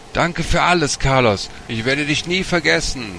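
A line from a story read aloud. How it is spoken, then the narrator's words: Calling out. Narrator (German): rief Martin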